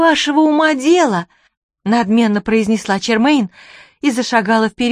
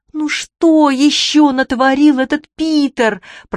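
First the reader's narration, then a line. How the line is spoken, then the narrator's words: Groaned. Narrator (Russian): простонала Чермейн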